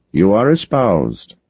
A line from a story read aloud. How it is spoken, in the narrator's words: said